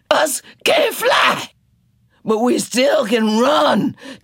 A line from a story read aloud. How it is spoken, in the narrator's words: Tea Cake shouted